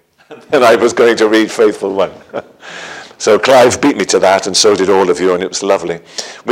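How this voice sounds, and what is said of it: Welsh accent. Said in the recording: “I'm Welsh for my accent”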